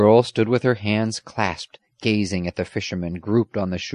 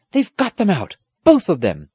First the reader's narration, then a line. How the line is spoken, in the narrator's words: the squire cried